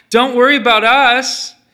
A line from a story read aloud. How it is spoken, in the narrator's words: she called out